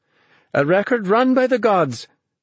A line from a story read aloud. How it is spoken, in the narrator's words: she cried